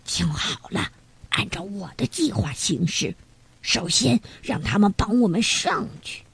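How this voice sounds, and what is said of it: Whispered quiet speech. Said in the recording (Chinese): “小声对两个同伙说”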